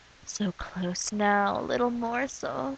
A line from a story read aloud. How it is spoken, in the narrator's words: she moans